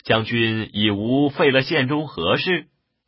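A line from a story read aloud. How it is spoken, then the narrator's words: Laughing. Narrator (Chinese): 统笑曰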